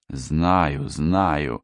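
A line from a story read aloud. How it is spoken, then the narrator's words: Through gritted teeth. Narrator (Russian): процедил Рыбин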